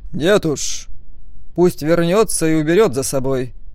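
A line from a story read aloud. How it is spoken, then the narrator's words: Through gritted teeth. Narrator (Russian): процедил Стоун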